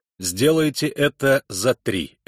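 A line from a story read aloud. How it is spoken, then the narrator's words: Barking. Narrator (Russian): рявкнул он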